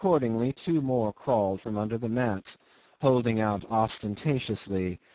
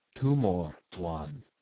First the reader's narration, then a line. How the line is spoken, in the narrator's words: said the man very softly